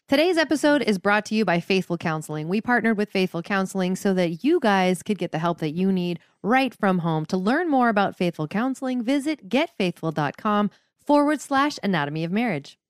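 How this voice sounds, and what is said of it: Polished radio announcer voice. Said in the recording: “What a radio voice.”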